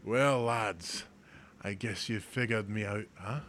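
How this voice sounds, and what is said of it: Put-on Scottish accent. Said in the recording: “the Scottish guy ... Weird accent”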